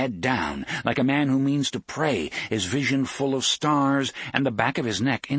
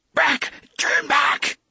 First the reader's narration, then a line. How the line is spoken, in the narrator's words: He tried to scream the words, but they came out in what was little more than a croak